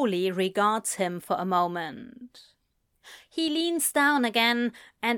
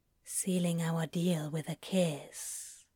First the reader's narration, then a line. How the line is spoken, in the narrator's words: Crowley whispers